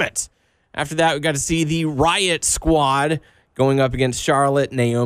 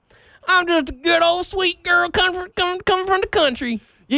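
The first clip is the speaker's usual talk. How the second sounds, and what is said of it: Forced, fake country girl accent. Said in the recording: “Do you think that accent from Sarah Logan's fake? That old country girl. ... That was awful. ... that is so forced.”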